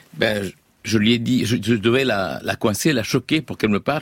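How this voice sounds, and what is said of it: Lilting Lebanese accent in French. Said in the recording (French): “Vous êtes né au Liban. C'est pour ça qu'on entend le petit accent chantant.”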